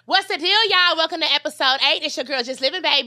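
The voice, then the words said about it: Yelling, loud high-energy delivery. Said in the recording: “Why are you yelling?... This is my energy.”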